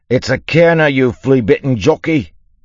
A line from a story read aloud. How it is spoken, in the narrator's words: he yelled